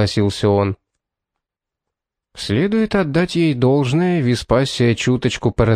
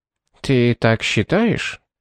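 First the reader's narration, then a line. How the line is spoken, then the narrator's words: Dry question. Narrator (Russian): сухо спросила она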